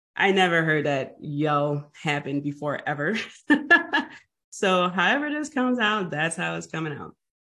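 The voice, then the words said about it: Hoarse voice. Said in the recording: “my voice is a bit hoarse. I am getting over a cold.”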